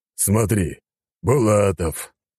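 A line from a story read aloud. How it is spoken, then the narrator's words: Old man, heavy sigh. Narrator (Russian): старик тяжело вздохнул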